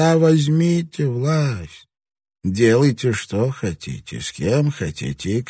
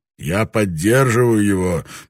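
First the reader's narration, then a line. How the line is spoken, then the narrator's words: Grumbled. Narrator (Russian): проворчал Таранага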